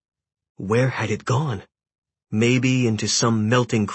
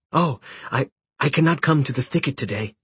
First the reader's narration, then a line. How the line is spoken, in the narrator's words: he stammered